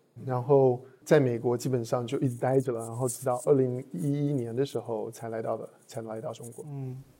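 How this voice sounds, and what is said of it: Taiwanese Mandarin accent. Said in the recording (Chinese): “我听你口音应该是呃从台湾来的”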